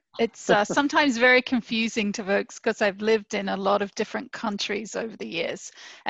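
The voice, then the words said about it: English-sounding foreign accent. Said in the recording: “you have an accent ... hey, what part of England are you from?”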